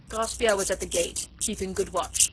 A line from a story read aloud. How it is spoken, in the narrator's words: began Bibot, pompously